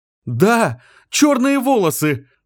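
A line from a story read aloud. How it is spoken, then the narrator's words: Female shout. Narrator (Russian): крикнула она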